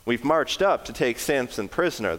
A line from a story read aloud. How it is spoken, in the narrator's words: replied